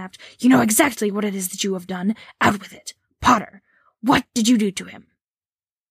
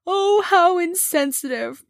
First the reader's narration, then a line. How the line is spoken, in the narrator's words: Myrtle sobbed